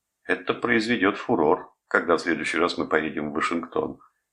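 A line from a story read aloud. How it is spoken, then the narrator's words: Relieved, laughing. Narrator (Russian): сказал он, почувствовав облегчение, засмеялся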